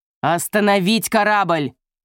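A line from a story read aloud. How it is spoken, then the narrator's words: Growled. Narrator (Russian): прорычал Мерик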